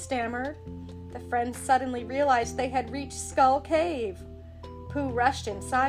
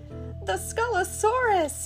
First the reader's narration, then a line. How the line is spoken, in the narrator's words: Piglet squeaked